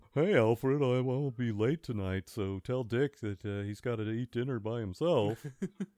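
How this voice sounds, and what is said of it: Bruce Wayne impression. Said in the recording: “doing a Bruce impression”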